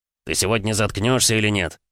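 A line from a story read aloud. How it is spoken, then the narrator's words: Growling. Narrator (Russian): зарычал Васильев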